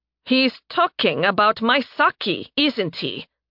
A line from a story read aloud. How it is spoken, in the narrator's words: Narime growled